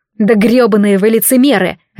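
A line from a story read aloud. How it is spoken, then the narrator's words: Barking angrily. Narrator (Russian): рявкнула я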